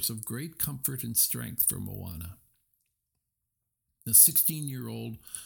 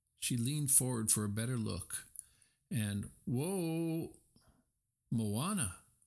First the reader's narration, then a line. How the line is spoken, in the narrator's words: Tui cried from behind her